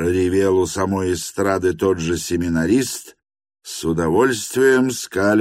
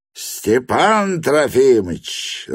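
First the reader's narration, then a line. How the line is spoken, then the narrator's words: Joyful roar. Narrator (Russian): радостно проревел семинарист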